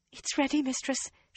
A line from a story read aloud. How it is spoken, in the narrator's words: she announced breathlessly